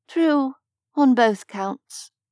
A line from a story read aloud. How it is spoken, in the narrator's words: Cath added dreamily